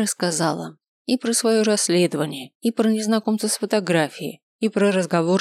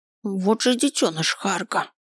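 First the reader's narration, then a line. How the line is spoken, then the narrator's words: Through gritted teeth. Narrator (Russian): процедила Вильма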